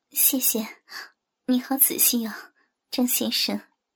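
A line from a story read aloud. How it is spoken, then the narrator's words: Soft, shy. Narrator (Chinese): 尹山红着脸，轻声地说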